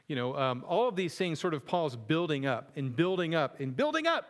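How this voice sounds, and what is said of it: Shouting, loud emphatic preaching. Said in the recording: “why I'm shouting so much. I'm trying to match the tone of this passage.”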